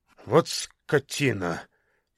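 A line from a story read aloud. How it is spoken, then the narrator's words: Hateful words through teeth. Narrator (Russian): с ненавистью процедил Сан Саныч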